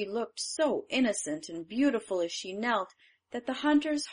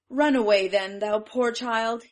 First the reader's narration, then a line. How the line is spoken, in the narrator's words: he cried